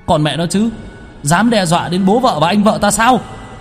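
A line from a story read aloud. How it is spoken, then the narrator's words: Thunderous roar. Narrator (Vietnamese): Đạo sĩ nội ứng gào thét, những tiếng vang ầm ầm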